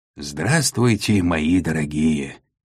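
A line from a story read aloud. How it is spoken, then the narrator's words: Hoarse, smiling, into microphone. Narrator (Russian): Кумар широко улыбнулся и хрипло произнес в микрофон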